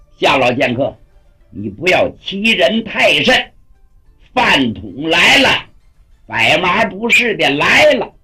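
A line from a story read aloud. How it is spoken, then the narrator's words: Confident shout. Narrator (Chinese): 心里头有数，喊了一声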